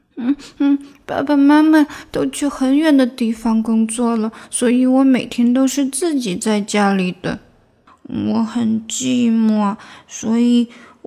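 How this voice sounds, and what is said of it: Quiet, soft-spoken dejected voice. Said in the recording (Chinese): “奶牛落寞的低下头，小声说道”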